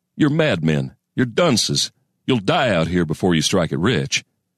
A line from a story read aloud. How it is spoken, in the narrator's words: chuckled bitterly